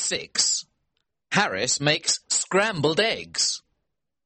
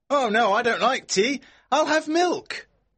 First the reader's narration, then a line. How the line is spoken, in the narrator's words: George shouts back